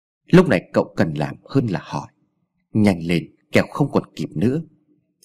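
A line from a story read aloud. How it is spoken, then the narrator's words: Old man, cold. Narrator (Vietnamese): Ông già lạnh lùng nói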